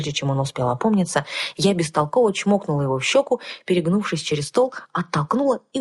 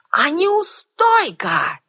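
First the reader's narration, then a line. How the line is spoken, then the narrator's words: Old man shouting after someone. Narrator (Russian): крикнул старый маг мне вслед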